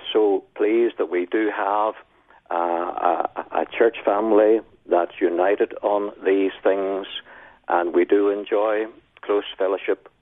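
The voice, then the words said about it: Speaks with a noticeable accent. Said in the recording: “I can't help but hear that wonderful accent.”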